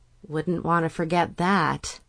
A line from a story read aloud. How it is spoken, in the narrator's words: mumbled